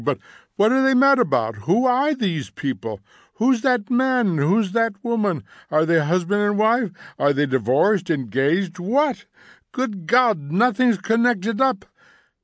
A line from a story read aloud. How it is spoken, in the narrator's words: cried Montague